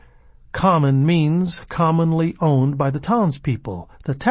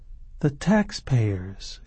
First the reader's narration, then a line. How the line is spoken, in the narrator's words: she said in a musing voice